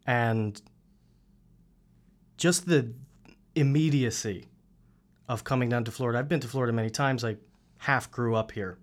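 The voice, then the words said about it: Queens New York accent. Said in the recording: “I'm from Queens, if you couldn't tell by the accent.”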